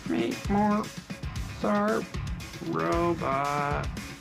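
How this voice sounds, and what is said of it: Bad imitation robot voice. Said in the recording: “I'll do the robot voice ... That's a terrible robot voice.”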